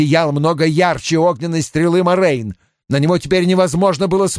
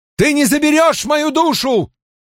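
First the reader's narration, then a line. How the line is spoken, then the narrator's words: Shout. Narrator (Russian): выкрикнул он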